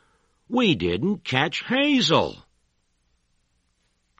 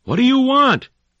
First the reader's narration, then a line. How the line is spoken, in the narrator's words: yelled